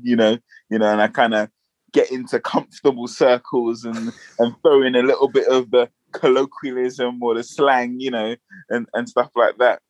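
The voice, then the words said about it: Standard London accent. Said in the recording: “I would consider my accent, you know, London, kind of like atypical London, or kind of like just standard, you know, northwest, north”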